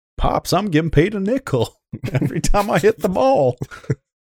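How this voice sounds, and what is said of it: Bad old-timey 1800s-style accent. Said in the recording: “I'm trying to do it in like a 1800s. ... That's my terrible accent.”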